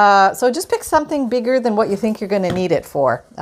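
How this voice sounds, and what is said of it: Usual voice. Nothing is said of it.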